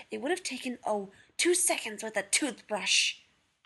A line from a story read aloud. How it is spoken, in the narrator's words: John hissed